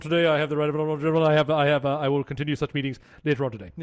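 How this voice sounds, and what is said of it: Imitates a parliamentary speaker. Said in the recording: “a good impression”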